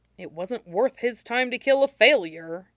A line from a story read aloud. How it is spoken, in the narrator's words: Zuko muttered